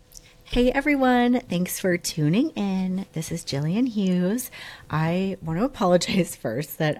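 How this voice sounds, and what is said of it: Hoarse, rough cold-affected voice. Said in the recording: “I sound terrible. I am on the tail end of this cold ... I've been under the weather for like about 2 weeks ... I just sound like, like an old crabby witch ... Smoker. Yeah, it sounds terrible ... who's this guy?”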